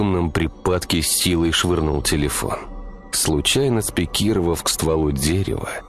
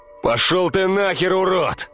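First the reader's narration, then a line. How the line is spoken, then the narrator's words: Yelling. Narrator (Russian): Уже орал Михаил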